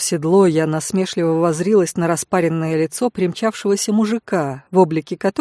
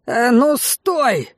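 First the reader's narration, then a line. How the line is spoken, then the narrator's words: Barked shout. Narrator (Russian): гаркнул этот приметный тип, не успев до меня добежать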